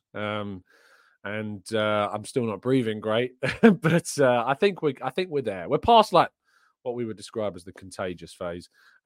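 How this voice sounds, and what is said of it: Slightly hoarse voice. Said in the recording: “My voice is still a little bit hoarse.”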